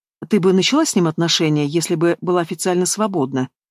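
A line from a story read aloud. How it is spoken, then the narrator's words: Plain. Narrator (Russian): спросила психотерапевт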